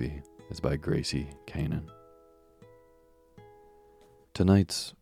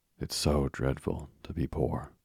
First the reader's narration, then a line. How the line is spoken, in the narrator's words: sighed Meg